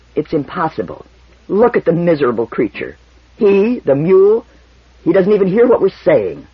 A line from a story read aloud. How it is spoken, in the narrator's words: Toran said harshly and with finality